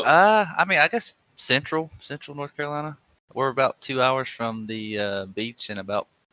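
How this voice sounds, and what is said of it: Thick Southern twang. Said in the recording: “you have a pretty thick accent ... that twang”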